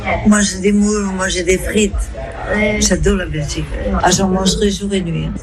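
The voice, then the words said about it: Good put-on Belgian French accent. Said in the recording (French): “Il fait très bien l'accent belge d'ailleurs.”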